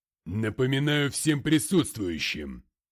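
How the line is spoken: Booming. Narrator (Russian): прогремел он

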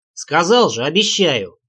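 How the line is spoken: Anxious bark. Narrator (Russian): рявкнул я, сам боясь того, что она опять впадет в истерику

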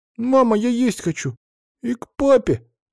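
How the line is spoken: Whimpering child. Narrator (Russian): захныкала в коридоре Наташка

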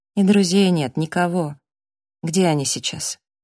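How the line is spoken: Sighed. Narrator (Russian): Сэм вздохнул

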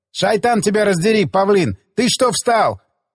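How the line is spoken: Yelling. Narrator (Russian): заорал Засоль

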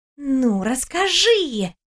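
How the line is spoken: Whispering. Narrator (Russian): шептала подруга

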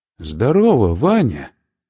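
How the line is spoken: Cheerful. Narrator (Russian): весело сказал Сазонов

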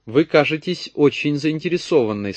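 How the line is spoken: Plain. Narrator (Russian): сказал я

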